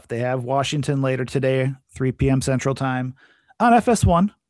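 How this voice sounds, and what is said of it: Announcer-style radio voice. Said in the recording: “that's my radio voice for you guys. I'm trying to do my best.”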